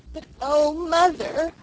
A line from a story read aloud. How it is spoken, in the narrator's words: I sobbed